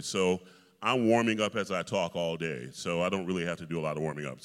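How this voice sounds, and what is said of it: Deep bass speaking voice. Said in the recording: “I'm a bass ... You talk in the range that you sing ... I talk right here ... It's right in my speaking voice.”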